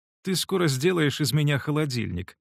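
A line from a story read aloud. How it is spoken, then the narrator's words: Laughing. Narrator (Russian): засмеялась она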